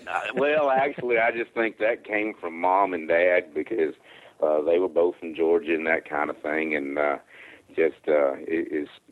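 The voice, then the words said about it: Southern American accent. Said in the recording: “that great Southern accent”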